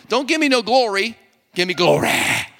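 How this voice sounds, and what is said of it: Put-on preacher church accent. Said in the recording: “you have to say it with a church accent ... You got to put a little T.D. Jakes on it ... you just have to use a preacher accent when you're preaching”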